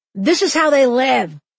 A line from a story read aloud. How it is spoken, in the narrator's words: a tourist lady snapped at me